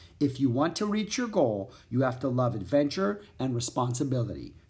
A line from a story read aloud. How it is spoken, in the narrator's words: said Jack